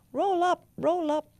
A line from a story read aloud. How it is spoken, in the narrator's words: cried the judge, a black crow